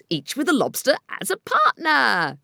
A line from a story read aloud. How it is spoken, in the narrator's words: cried the Gryphon